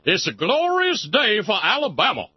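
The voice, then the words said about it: Imitated Alabama politician's accent. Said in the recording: “I am not overstating the accent here ... the same sort of accent that once declared, "Segregation yesterday, segregation today, segregation forever."”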